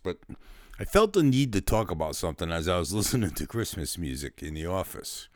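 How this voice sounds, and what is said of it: Slightly sick-sounding voice. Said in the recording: “my voice sounds a little weird, it's because I'm coming down with something”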